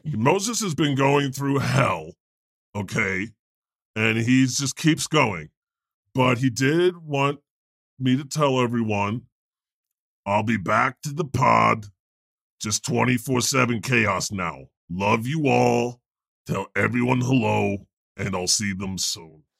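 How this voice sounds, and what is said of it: Imitates another person's voice. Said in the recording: “that's my Moses impersonation”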